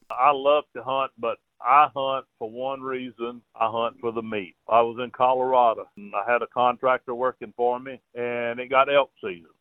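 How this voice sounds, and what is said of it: Louisiana Southern accent. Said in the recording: “who lives near Lake Charles, Louisiana, as is evident by his accent”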